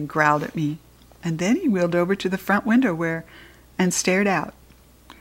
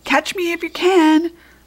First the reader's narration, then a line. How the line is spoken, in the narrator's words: squeaking